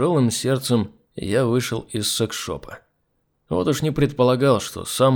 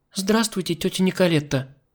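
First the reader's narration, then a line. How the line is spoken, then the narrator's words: Timid child's babble. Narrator (Russian): Девочка пролепетала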